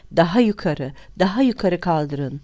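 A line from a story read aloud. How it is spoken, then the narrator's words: Cried out. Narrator (Turkish): diye haykırdı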